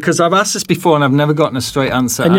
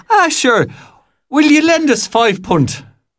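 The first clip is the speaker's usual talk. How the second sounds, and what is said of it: Stereotypical put-on Irish accent. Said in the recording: “I'm going to do a deliberately stereotypical 1970s ... English ... stand-up ... comedian ... during ... an ... Irish accent”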